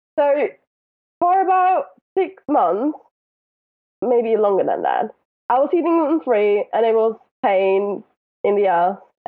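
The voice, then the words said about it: Noticeable English accent. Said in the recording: “With your accent, nobody will hear it... once in a while, you sound like Adele to me... there's a couple of words where it sounds like that to me”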